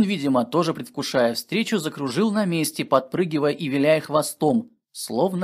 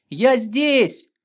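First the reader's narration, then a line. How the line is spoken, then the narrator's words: Joyful, relieved shout. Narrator (Russian): Денис обрадовался и, почувствовав облегчение, вздохнув, закричал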